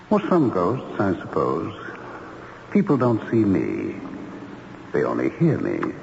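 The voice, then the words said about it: Spooky ghost voice. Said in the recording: “you do have a kind of spooky voice”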